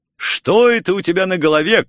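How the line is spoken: Shout. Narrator (Russian): крикнул я

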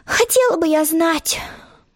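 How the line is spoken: Sorrowful sigh. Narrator (Russian): горестно вздохнула Алиса

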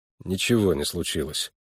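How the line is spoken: Glum reply. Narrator (Russian): уныло отвечал Харлан

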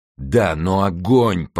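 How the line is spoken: Moaning. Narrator (Russian): простонал Мордаунт

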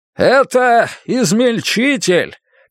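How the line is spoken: Shout into ears. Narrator (Russian): крикнул им в уши главный инженер

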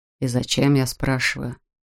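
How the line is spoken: Grumbled. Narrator (Russian): проворчал Кларк

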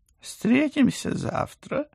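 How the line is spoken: Overly cheerful. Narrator (Russian): как-то слишком уж бодро предложил кот

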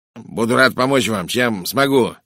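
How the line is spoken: Sharp, slightly nasal voice. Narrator (Russian): резким, слегка гнусовым голосом произнес он

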